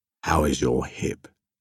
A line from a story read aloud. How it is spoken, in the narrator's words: Yesuge murmured